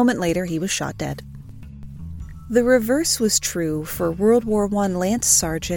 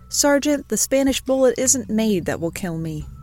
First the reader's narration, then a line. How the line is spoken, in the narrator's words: O'Neill laughed, and reportedly replied